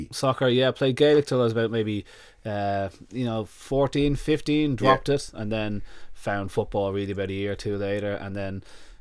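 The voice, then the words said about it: Dublin Irish accent. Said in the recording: “this is a Dublin accent ... I end up with a Dublin accent”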